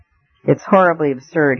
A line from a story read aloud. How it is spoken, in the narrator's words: he said